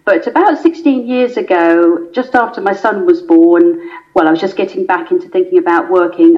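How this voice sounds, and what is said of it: English accent from Surrey. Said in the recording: “I didn't pick up that accent, no. Very English. I grew up in Surrey in England, and that accent has stayed with me.”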